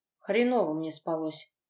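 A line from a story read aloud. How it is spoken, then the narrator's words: Displeased grumble. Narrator (Russian): недовольно пробурчал отец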